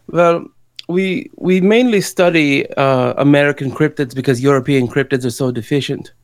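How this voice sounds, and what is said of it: Put-on German accent, slipping. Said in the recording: “you may notice my accent slipping ... You kind of do just sound European.”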